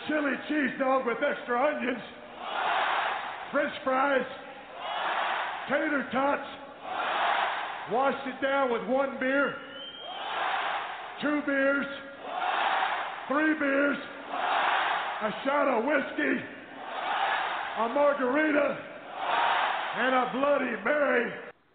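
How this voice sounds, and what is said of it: Texas accent. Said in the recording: “he's got a Texas accent”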